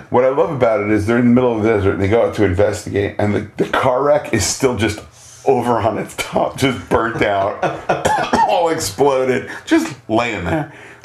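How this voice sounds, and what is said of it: Bad, inconsistent put-on Australian accent. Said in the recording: “I'm sorry for my horrific Australian accent that I'm drifting in and out of.”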